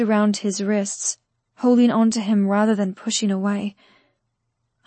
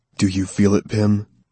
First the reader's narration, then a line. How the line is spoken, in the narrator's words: He panted between kisses